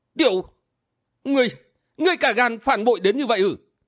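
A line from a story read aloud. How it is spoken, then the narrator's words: Angry, tongue-tied stammer. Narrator (Vietnamese): Lão quái tức giận đến nỗi líu lưỡi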